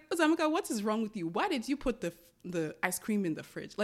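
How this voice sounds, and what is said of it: Nigerian Igbo accent, scolding tone. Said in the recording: “I scolded myself in a Nigerian accent, in an Igbo accent. And that Igbo accent only comes out when I scold myself.”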